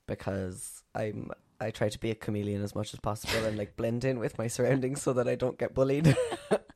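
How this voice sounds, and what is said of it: Posh Cork Irish accent. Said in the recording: “I'll go more Cork ... The Irish accent ... we probably sound quite posh Cork”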